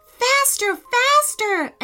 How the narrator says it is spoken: Amelia cried

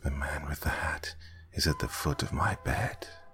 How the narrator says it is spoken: whispered in a stressed hush

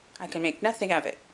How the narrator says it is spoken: said he

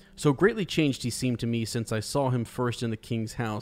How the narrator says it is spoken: said Eowyn

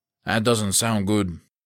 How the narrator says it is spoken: Cortez said

